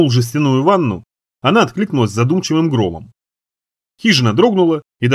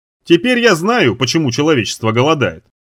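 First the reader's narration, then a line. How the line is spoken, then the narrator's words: Fairly loud. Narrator (Russian): сказал довольно громко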